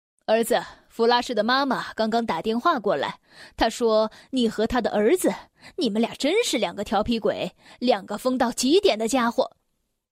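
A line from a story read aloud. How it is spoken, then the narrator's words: Father, laughing. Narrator (Chinese): 爸爸笑着告诉我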